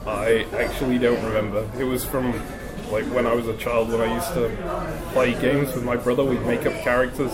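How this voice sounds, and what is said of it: Broad, neutral British accent. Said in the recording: “you don't have a Scottish accent ... you've got like a broad UK accent. It's kind of not really particular to any real part, like a Midlands accent or a southern accent or whatever. It's kind of in the middle.”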